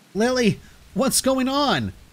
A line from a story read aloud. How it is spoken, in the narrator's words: I called out, my voice strained with concern